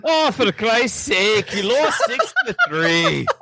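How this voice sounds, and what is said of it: Attempted British accent sounding Scottish. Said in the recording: “Do it in a British accent. British accent. ... Thank you, Shrek. ... What are you wearing, a kilt with a giant red beard? You Scottish fuck ... his accent was better than Mel Gibson's in the movie”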